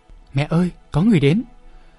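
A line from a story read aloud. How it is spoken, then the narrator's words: Child's excited calling. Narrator (Vietnamese): hài tử đã gọi rối rít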